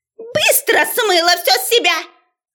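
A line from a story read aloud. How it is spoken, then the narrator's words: Furious yelling. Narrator (Russian): Орала преподаватель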